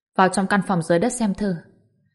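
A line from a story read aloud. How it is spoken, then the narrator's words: Soft sighing. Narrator (Vietnamese): La Thuần khẽ thở dài một cái, nói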